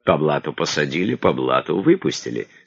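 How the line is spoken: Laughing. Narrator (Russian): смеялся Багров

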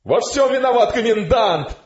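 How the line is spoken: Frenzied shouting. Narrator (Russian): кричал офицер в неистовстве

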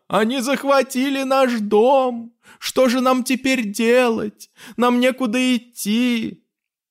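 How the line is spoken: Boys whimpering. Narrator (Russian): Даже мальчишки захныкали

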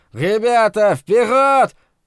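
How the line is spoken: Shrill harsh shout, heavy burr. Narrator (Russian): он кричал пронзительно резко, страшно картавя

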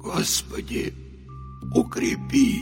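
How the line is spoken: Barely audible, breaking whimper. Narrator (Russian): Едва слышно пробормотал Михаил, с омерзением ощущая, как его голос срывается на жалобное поскуливание

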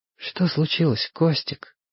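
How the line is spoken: Quiet. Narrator (Russian): тихо сказала белка

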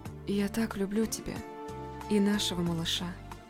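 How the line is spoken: Tender whisper. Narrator (Russian): прошептала

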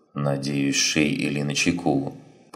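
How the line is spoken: Mutter. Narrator (Russian): пробормотала Дах

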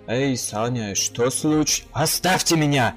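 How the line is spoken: Roaring. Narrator (Russian): взревел я

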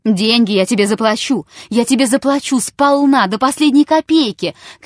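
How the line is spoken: Shouting. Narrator (Russian): кричал Чертабханов

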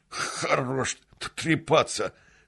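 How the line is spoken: Stuttering strong man. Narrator (Russian): заикаясь, сказал самый крепкий

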